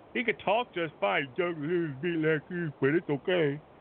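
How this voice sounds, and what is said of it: Imitates another person's voice. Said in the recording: “That's my best Uncle Frank impression.”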